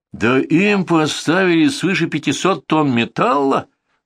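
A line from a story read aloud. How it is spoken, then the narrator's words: Rude interruption by boss. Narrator (Russian): грубо обрывает меня главный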